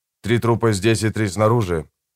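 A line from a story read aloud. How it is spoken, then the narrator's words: Calm. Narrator (Russian): спокойно произнес я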